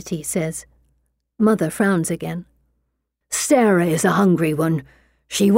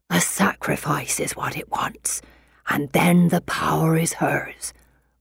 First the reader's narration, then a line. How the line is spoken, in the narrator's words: Mother whispers